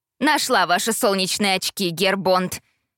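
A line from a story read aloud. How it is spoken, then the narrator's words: Grumbling from below. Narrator (Russian): проворчала фрау Цайглер, стоя внизу лестницы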